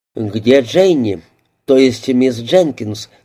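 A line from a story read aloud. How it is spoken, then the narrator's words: Plain. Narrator (Russian): спросил Моррис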